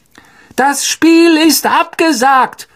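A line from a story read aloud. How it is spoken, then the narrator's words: Amplified shout through megaphone. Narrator (German): rief Professor McGonagall durch das Megafon hinüber zu den vollbesetzten Rängen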